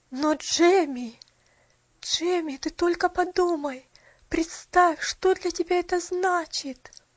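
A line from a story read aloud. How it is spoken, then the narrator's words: Trembling voice. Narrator (Russian): Дрожащим голосом произнесла миссис Мёрфи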